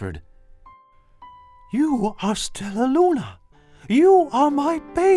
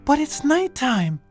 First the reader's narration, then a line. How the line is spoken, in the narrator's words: Stella Luna squeaked